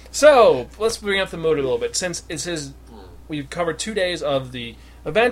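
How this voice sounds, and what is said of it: Usual voice. Nothing is said of it.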